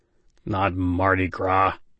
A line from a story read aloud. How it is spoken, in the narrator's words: Bobby grumbled